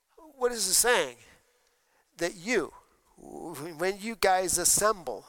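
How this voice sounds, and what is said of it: Usual voice. Nothing is said of it.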